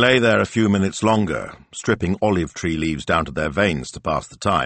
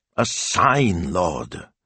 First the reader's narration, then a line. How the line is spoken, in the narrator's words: Signor Speranza grumbled